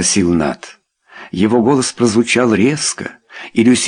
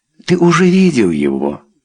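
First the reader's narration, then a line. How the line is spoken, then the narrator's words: Soft voice. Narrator (Russian): мягко сказала она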